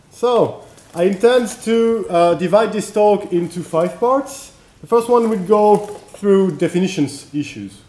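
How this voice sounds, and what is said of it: French accent. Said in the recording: “sorry if I'm sometimes using my French accent”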